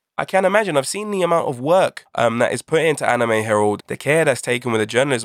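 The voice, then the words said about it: British accent. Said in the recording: “by my accent, I'm sure you can tell I'm from the UK”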